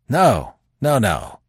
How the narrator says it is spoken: said Manfred fiercely

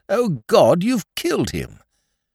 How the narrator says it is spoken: you cried out

